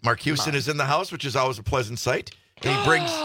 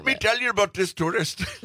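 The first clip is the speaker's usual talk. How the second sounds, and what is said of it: Attempted Rastafarian accent, sounds Indian. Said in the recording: “That's an Indian accent. ... Quickie Mart from The Simpsons. ... That was a Rastafarian. ... Work on that.”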